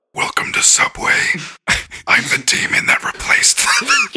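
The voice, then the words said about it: Deep evil demon voice. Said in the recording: “You have a deep voice. ... You've really leaned into your evilness.”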